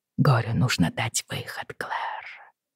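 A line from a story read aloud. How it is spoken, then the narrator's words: Whisper. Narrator (Russian): шептал Джейми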